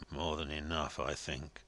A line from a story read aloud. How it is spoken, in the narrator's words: muttered Joey Ladle, shaking his head solemnly